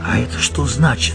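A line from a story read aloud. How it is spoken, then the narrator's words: Whispered question. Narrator (Russian): шепотом спросил Антонио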